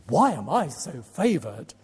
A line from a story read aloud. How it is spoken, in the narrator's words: she exclaims